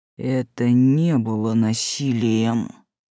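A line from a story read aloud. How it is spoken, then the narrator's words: Through tightly gritted teeth. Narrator (Russian): процедил так, что показалось, зубы в пыли раскрошит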